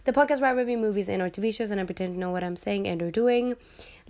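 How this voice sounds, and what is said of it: Sick-sounding voice. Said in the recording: “You might probably hear in my voice that I have been sick ... for my voice”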